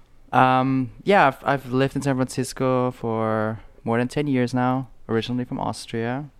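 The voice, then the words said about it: Non-native foreign accent. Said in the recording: “accent,... he's not a native United Statesian”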